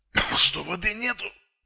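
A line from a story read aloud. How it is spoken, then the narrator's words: Wheezing. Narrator (Russian): прохрипел он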